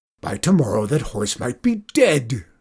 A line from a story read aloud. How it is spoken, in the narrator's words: screamed Zeke